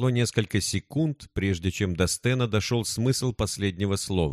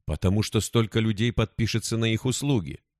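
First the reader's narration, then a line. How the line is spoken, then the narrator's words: Plain. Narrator (Russian): сказала Зула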